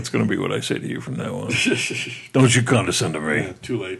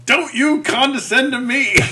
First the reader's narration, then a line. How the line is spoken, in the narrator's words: I hear her yell